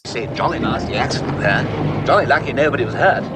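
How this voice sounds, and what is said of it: English accent. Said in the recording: “that funny accent? Are you from Harvard or something? ... I'm English. ... Sounds so foreign.”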